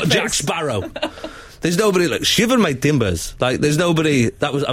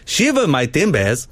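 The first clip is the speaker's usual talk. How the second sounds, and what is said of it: Attempted Somali accent, sounds Jamaican. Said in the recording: “I was trying to do like a Somali accent ... I know it sounded Jamaican”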